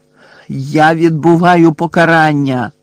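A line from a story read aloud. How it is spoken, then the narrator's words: Shouted after someone. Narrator (Ukrainian): закричав їй услід Гаррі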